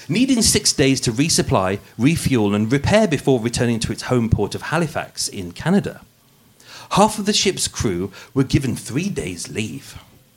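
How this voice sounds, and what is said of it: Put-on posh English voice. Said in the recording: “putting on my posh voice for you today, the podcast voice. ... normal with hint of Brummie in there”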